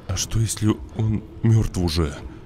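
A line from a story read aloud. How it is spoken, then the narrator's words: Stammering. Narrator (Russian): заикаясь, сказал Кирюха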